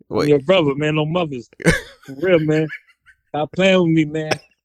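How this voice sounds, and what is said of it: Put-on Washington DC accent. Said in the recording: “I'm trying to get my DC accent. ... trying to get all of his DC lingo out”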